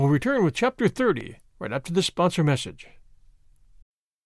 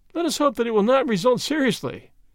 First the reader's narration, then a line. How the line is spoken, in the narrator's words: laughed his friend